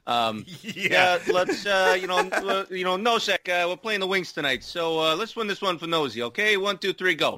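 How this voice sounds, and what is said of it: Put-on accent for a character. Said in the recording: “I don't know why I gave Gallant this accent.”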